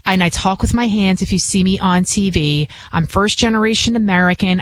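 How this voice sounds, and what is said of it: Bronx New York accent. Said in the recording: “I can be from the Bronx. Obviously, you can hear it in my accent”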